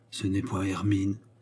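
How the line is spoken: Surprised wounded man murmuring. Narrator (French): murmura le blessé surpris

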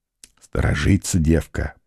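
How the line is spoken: Whispered. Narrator (Russian): прошептал Алексашка

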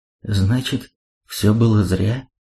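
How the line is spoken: Trembling voice. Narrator (Russian): дрогнувшим голосом спросила Айриция

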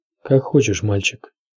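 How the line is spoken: Plain. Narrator (Russian): ответил Мормонт

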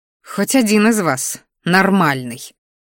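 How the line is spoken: Grumbling. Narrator (Russian): буркнула Мелисса

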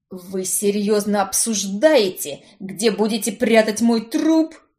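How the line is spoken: Howling wail. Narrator (Russian): взвыл Барнс

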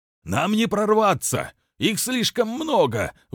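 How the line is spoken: Shout. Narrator (Russian): выкрикнул

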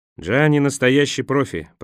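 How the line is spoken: Grumbled. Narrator (Russian): проворчал Николас

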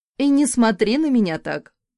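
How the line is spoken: Snorting. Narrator (Russian): фыркнула

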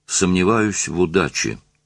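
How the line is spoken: Calm. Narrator (Russian): спокойно оценила положение Ольга

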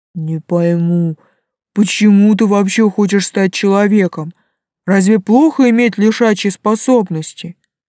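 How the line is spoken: Grumbling. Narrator (Russian): проворчал Проша

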